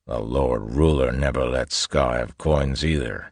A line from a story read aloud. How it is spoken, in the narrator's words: another voice grumbled